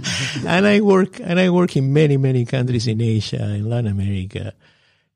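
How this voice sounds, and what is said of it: Foreign accent from overseas. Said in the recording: “as you can see with my accent, from overseas”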